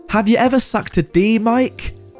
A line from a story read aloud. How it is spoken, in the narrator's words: Without thinking, yelled